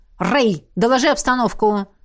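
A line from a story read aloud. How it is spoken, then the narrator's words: Barked. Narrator (Russian): рявкнул полковник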